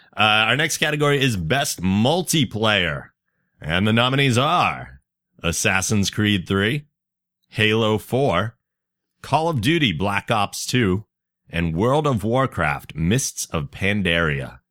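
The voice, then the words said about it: Booming announcer-style voice. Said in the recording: “I have my announcer voice on today, by the way, if you can't tell.”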